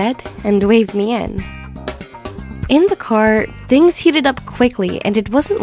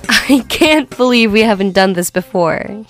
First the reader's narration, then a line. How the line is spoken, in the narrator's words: he laughed